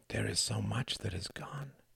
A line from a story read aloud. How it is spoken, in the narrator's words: she would whisper